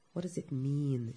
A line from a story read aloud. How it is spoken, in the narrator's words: muttered